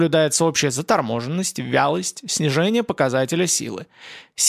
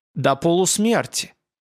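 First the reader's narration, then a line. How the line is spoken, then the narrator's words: Snorted. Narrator (Russian): Рапунг хмыкнул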